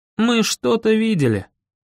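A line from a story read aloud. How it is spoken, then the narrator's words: Sighing. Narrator (Russian): вздохнул я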